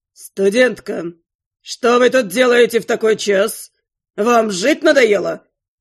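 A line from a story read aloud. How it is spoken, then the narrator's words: Thundering from overhead. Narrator (Russian): Прогремело над головой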